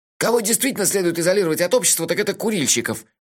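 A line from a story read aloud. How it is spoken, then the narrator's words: Snapping back. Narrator (Russian): огрызнулся Мелифара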